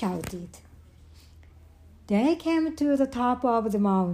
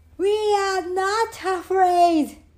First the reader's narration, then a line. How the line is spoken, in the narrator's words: screamed Frog and Toad at the same time